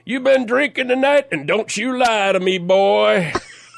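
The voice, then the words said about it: Big southern sheriff accent. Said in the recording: “Big guy with a big southern accent.”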